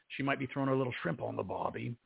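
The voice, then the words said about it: Poor put-on Australian accent. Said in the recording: “my accent is horrible”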